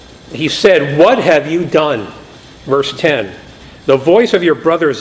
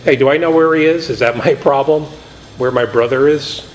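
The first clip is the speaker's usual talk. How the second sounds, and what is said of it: Sarcastic delivery. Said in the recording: “You can almost hear him being sarcastic.”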